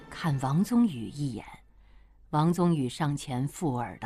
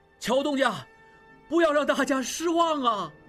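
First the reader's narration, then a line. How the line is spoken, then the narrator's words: Crowd shouting loudly. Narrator (Chinese): 众人又大声喊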